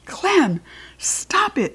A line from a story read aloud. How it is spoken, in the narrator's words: shouted in a very firm voice